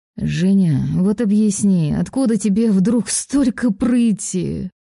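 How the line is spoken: Moaning. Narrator (Russian): простонал факир

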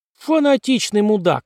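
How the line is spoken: Yelled. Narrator (Russian): заорала Уокер

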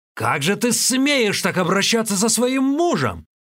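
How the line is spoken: Angry exasperated yell. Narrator (Russian): жених не вытерпел и заорал

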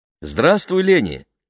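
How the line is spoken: Cheerful greeting. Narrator (Russian): весело поприветствовала ее миссис Роудс

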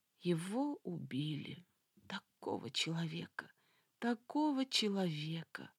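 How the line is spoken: Sorrowful whisper. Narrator (Russian): прошептала она горестно

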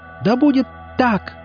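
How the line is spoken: Shriek. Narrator (Russian): взвизгнула Биат

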